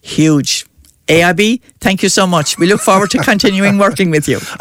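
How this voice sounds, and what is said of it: Irish Clare accent. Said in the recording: “that is not an Offaly accent, that is a Clare accent”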